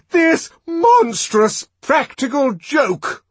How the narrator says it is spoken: the director shouted

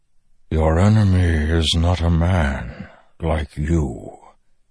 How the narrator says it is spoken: the Stormfather replied, voice rumbling, thoughtful, even frightened

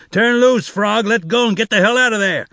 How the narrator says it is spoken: Zek shouted

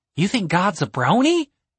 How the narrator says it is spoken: Julian gasped

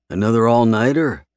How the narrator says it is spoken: I grunt

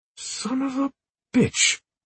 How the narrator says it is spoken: he exclaimed a second later

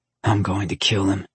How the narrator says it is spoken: Amo said under his breath

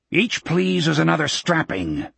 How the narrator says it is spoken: the soldier growled

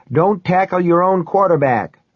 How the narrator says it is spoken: I yelled, grinning

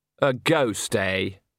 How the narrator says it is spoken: said Andre sarcastically

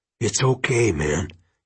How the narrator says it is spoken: he whispered

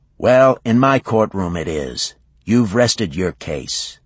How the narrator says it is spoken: Alexander said flatly

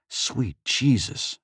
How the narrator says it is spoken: Faisal whispered

